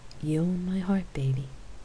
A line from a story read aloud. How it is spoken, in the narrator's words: she replied softly